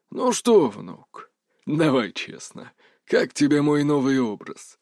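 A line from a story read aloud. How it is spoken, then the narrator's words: Husky resonant voice. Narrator (Russian): раздался хрипловатый голос, в котором теперь звенел легкий, буквально физически ощутимый магнитный резонанс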